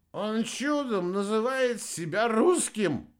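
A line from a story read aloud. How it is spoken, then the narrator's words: Breathless exhale. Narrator (Russian): выдохнул серб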